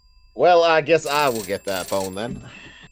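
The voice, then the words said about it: Put-on southern accent. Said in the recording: “I'm just playing Bond with a southern accent... God, it's such a nice southern accent, too”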